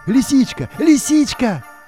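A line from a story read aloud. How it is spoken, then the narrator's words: Exclamation. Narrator (Russian): воскликнул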